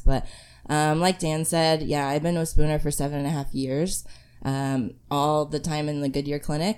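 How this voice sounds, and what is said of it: Hoarse, fading voice. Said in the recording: “I'm slowly losing my voice. So I won't sound the same”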